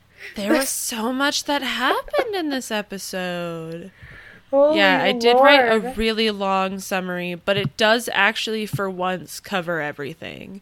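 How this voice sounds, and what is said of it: Tired-sounding voice. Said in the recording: “I'm, like, really tired right now, and you can probably hear it in my voice.”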